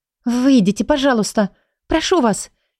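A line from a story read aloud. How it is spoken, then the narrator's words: Frightened, repeating. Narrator (Russian): Испуганно повторяю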